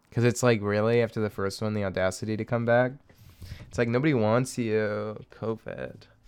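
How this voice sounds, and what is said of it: Condescending high school girl voice. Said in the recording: “girl voice, but not just any girl voice. ... my high school girl who thinks she's better than she actually is at being a person ... the condescending.”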